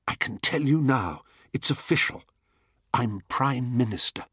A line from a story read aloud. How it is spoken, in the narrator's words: Paul whispered in my ear with delighted triumph